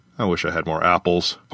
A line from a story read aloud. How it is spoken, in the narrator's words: Parka muttered